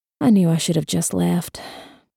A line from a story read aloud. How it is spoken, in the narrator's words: mumbling